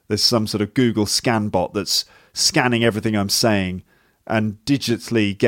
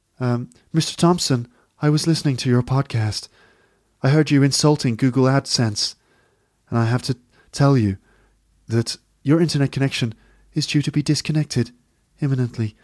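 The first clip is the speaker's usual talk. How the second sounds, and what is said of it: Robotic artificial intelligence voice. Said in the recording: “these artificial intelligence robots always speak in the same voice. They always speak in this kind of voice.”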